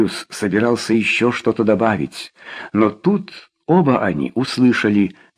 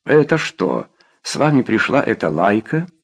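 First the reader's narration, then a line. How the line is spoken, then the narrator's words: Plain. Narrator (Russian): спросила она Роя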